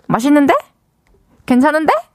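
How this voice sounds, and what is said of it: Imitates another person's voice. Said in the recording (Korean): “백종원님 성대모사는 ... 백다에 한 번만 더 해줘”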